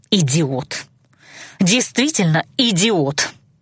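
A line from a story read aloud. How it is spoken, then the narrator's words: Breathed through gritted teeth. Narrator (Russian): Сквозь зубы выдохнула тленница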